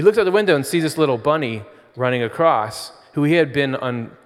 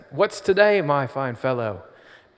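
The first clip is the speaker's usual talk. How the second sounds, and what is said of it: Put-on accent. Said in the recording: “Oh no, my accent.”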